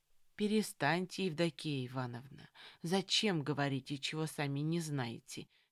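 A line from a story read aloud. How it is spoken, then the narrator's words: Gentle interjection. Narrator (Russian): мягко вступила в разговор Марья Сергеевна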